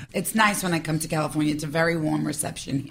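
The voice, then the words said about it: New York accent. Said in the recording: “it's so obvious you're from New York ... my voice is, you could pin me out anywhere. I'm like, New York. ... Staten Island.”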